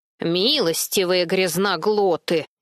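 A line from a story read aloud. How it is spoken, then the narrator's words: Grumbling grandmother. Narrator (Russian): проворчала бабушка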